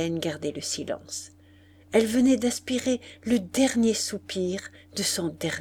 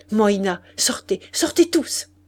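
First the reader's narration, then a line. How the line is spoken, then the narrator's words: Loud shout drowning another voice. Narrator (French): cria madame d'Aiglemont en étouffant la voix d'Hélène par les éclats de la sienne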